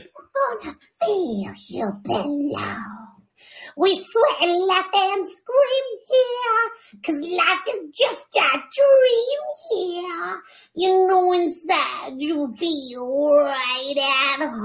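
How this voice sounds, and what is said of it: Really scratchy singing voice. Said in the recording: “In that really scratchy voice. It's probably killing her throat.”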